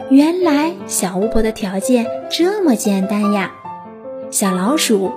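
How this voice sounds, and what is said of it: Usual voice. Nothing is said of it.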